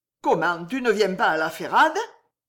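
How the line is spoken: Harsh. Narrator (French): Naïs jeta durement

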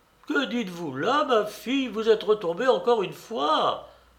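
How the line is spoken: Father exclaiming. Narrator (French): s'écrie le pater

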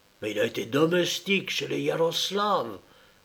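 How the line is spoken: Whispered through clenched teeth. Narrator (French): murmura Malcolm, les dents serrées

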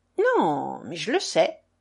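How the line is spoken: Pensive, assertive. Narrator (French): affirmait-elle d'un ton pensif

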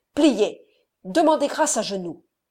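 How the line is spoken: Thundering shout. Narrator (French): cria-t-il d'une voix tonnante

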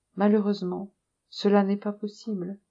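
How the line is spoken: Regretful tone. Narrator (French): Madame de Valser dit d'un ton de regret

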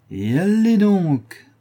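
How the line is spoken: Cheerful exclamation. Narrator (French): s'écria gaiement Mme Pipelet

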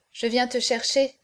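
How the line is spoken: Plain. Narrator (French): dit-elle

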